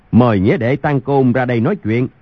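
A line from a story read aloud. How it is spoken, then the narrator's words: Loud calling voice. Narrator (Vietnamese): Thiếu Một Chân bèn cao giọng gọi lớn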